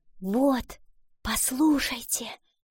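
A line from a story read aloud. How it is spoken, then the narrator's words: Whisper. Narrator (Russian): прошептала она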